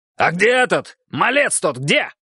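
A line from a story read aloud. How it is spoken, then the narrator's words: Shout. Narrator (Russian): крикнул Борман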